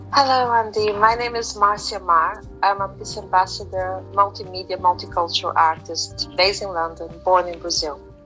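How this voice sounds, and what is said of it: Brazilian accent, sounds somewhat Caribbean. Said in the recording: “I could hear an accent when we were speaking earlier, but I just wasn't sure. Brazil, right. It sounded quite Caribbean, your accent.”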